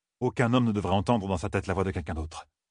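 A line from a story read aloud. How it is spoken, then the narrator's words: Muttered. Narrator (French): avait marmonné Rand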